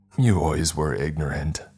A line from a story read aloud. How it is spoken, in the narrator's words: Larry spat